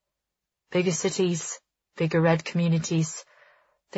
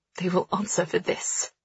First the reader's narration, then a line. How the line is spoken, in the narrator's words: she hisses, her words tighter than any noose